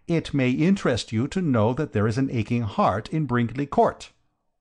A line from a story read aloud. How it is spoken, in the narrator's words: I said firmly